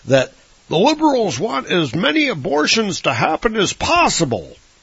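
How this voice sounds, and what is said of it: Bad Rush Limbaugh impression. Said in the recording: “worst Rush Limbaugh impersonation ever. Sounded a bit more like Sean Connery.”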